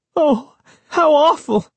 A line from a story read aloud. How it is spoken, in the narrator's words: Sari cried, her voice trembling